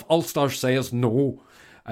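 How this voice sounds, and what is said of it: Put-on Ulster accent. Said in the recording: “Am I allowed to do that accent? Well, I did it.”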